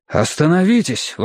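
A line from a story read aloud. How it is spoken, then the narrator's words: Alarmed exclamation. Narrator (Russian): воскликнул Мэтью, встревоженный видом этих красных рек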